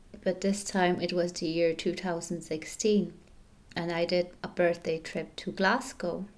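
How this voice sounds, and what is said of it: Sick-sounding voice. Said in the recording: “I'm not feeling my very best right now. Perhaps you can hear it in my voice. ... feeling a bit sick”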